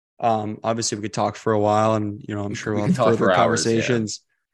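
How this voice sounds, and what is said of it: Slight Canadian accent. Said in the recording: “I love you can get it a little bit. Your guys' Canadian accent. It just sticks ... Out.”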